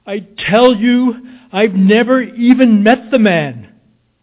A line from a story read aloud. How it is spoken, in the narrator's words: I thundered